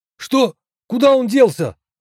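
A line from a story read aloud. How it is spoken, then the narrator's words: Several voices shouting. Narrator (Russian): закричало несколько голосов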